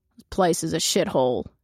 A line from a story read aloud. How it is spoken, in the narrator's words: growls